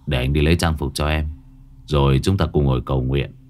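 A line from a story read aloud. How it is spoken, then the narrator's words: Low, deep voice. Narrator (Vietnamese): Bình trầm giọng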